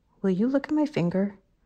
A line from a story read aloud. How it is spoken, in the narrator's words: he said quietly